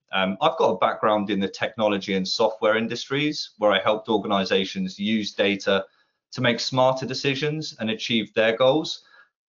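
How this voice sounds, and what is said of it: London English accent. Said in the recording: “If the accent isn't a giveaway, I'm London-based”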